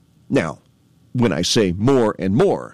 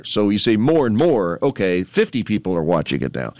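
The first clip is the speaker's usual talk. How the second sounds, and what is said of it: Sarcastic tone. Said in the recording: “I'm being sarcastic”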